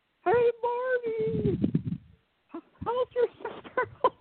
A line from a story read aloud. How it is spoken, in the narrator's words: he just yelled